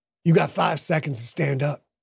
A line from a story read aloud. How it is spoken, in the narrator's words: Butch said